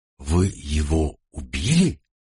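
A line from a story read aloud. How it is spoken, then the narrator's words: Frightened girl asking. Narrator (Russian): Девушка … испуганно … спросила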